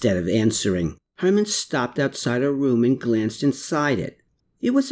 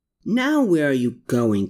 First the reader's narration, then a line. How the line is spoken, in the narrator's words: Klaus cried out